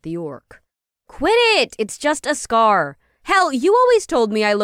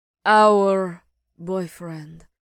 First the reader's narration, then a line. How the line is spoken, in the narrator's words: Phelan growled